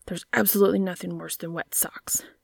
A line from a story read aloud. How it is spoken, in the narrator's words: he grumbled